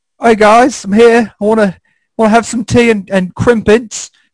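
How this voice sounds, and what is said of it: Put-on British accent. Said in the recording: “I had a little bit of an accent ... you really are British. There's your accent.”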